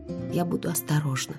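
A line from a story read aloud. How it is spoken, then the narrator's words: Muttering. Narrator (Russian): пробормотала я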